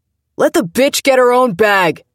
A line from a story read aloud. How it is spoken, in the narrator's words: someone yelled